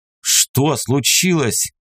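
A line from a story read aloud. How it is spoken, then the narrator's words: Barked. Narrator (Russian): рявкнул я на нее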